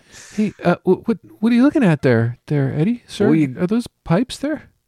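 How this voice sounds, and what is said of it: Character voice. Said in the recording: “can do that voice.”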